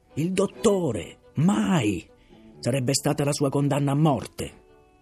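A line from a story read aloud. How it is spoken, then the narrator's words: Shouting. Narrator (Italian): si mise a gridare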